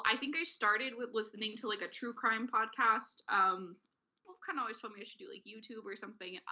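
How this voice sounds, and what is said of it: Californian young woman accent. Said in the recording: “I know I sound like a California white girl a little bit”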